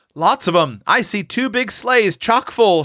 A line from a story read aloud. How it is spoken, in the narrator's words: shouted Seth